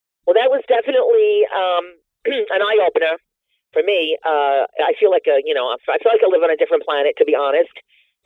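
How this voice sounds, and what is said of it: Thick New York Bronx accent. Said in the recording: “They say my accent is so thick. They ask me all the time, are you from Brooklyn? ... the South Bronx”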